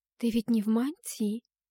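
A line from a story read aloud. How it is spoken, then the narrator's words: Calm. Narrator (Russian): спокойно сказала Антария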